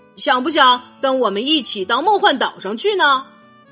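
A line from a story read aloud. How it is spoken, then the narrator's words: Plain question. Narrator (Chinese): 彼得潘问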